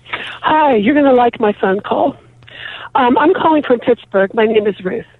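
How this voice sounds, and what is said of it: Breathless, huffy voice. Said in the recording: “I'm a little out of breath because I have asthma ... I wish I wasn't so huffy with the asthma”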